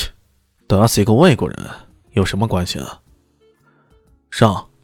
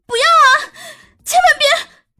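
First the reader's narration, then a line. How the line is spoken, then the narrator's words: Loud shouting. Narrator (Chinese): 叶琳娜大声喊道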